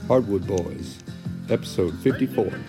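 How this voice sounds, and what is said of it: Soft velvety radio voice. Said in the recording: “Nice and soft, man. That was a nice, your radio voice you got going. ... Velvety.”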